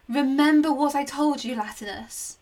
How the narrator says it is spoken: called out

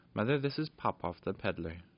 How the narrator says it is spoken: she said

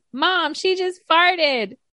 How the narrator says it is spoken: My son loudly announces

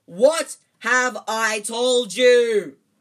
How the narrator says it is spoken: he thundered his uncle, spraying spit all over the table

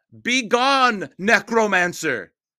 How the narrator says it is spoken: shouted a new voice

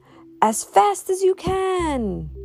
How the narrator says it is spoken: cried Granddude

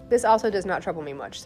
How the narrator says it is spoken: said Siddhartha

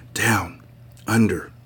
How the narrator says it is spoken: whispering

